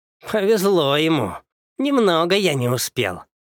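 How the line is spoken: Grumble. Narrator (Russian): пробурчал Элиец

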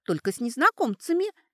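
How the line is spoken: Squeaky girl. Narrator (Russian): пискнула девица

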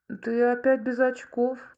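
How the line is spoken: Disappointed drawl. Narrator (Russian): разочарованно протянул Юра

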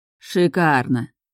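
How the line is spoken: Drawled. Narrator (Russian): протянул Нейтан

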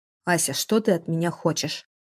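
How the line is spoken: Grumbled. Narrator (Russian): проворчал Градов

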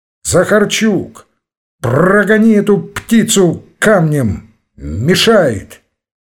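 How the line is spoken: Sudden shout. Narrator (Russian): вдруг крикнул денщику

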